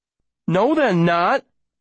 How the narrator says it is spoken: I say, my voice getting louder

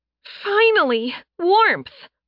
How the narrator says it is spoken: Sen shouted

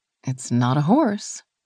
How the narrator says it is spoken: she said softly

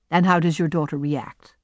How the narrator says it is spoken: I asked

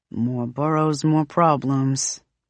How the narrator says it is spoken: Brooklyn mutters

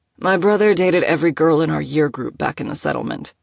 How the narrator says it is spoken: Moses said blandly

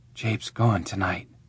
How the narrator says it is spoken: he whispered

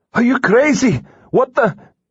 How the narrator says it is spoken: The rest of Christian's words were lost in the howling wind

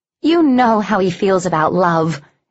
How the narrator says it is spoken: Arion snapped

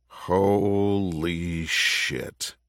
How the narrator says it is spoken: Richard muttered

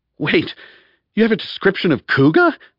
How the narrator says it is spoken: blurted Harry

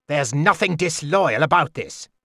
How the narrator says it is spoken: Chade snapped

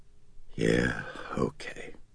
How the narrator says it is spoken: Chris said softly

